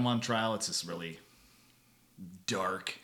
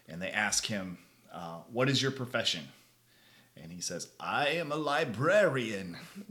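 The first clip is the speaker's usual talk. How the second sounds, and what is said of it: Imitates a character's voice. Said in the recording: “that's actually pretty good impression. That's pretty good.”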